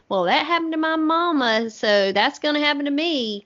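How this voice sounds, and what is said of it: Put-on Southern accent. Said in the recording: “I just can hear the Southern accent.”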